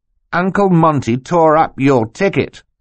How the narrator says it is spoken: Klaus replied triumphantly

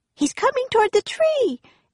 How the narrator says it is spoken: Annie cried

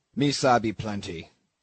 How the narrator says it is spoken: grunted Queequeg, puffing away at his pipe

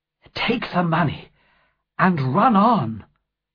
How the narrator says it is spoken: my mother said breathlessly

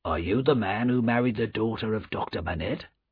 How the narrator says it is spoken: the first official said quietly to him

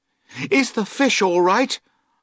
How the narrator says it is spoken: I cried

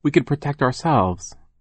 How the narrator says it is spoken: Violet replied

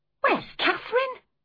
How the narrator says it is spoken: I cried sharply

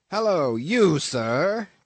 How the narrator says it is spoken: cried the captain, a gaunt rib of the sea

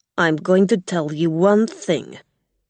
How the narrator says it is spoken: Gog said angrily

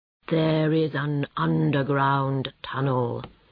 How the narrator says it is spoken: said the Badger slowly

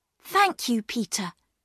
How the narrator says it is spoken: said Bobby

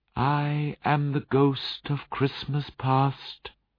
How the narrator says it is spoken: replied the spirit, in a soft, gentle voice

